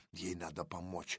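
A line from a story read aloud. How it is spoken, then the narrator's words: Whisper. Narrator (Russian): зашептал я Кириллову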